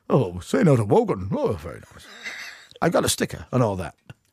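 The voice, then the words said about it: Poor impression of Terry Wogan. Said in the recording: “that's the worst impression I've ever done”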